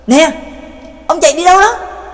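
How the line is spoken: Anxious loud shout. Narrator (Vietnamese): Trác Mộc Cường Ba vẫn không yên tâm, hét lớn

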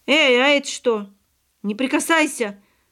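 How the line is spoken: Yelling. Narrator (Russian): заорал, бросаясь к нему Павлик

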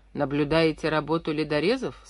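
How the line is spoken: Plain. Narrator (Russian): спросил моряк

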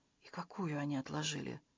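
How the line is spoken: Whisper. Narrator (Russian): прошептал Джина

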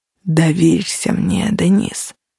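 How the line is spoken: Very soft, man. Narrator (Russian): очень мягко произнес он

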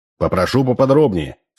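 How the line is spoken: Stern. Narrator (Russian): сказал строго Белосельский

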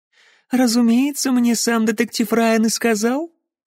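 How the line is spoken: Purring. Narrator (Russian): промурлыкала Розалинд

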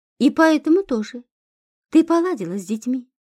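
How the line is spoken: Abrupt change of subject. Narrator (Russian): резко сменил тему разговора Кощей

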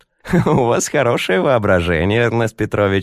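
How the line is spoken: Laughing. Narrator (Russian): засмеялась Леночка

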